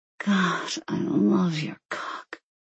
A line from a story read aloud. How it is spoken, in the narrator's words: she breathed